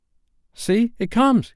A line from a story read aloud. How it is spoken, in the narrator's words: cried Curly